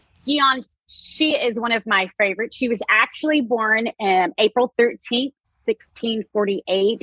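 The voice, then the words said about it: Thick Texas accent. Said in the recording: “I am from Texas, so my accent is a little thick at times.”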